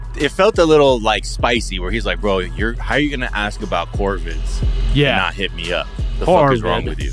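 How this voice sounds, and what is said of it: Australian accent. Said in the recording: “your New Zealand accent ... Aussie”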